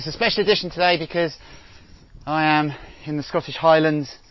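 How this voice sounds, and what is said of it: Out of breath speaker. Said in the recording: “I'm a little out of breath because I reckon I'm about halfway up”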